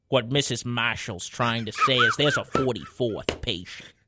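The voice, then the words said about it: Imitates another person's fake Boston accent. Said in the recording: “Leo's fake Boston accent ... So damn spot on.”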